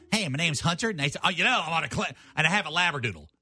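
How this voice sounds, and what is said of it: Imitates another person's voice. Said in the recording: “who am I imitating?”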